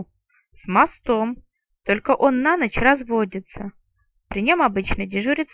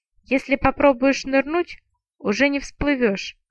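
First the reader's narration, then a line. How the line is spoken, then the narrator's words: Grim promise. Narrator (Russian): мрачно пообещала я Смолке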